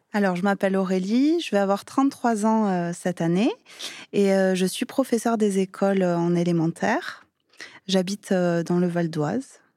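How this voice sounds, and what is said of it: Slight southern French accent. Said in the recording (French): “tu as un petit accent. ... je suis originaire de Perpignan”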